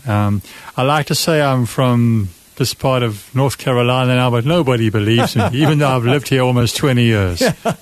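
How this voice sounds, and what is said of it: South African accent. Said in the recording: “The accent is a South African accent.”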